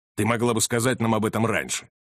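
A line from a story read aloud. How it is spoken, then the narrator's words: Grumbling. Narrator (Russian): проворчал Беллами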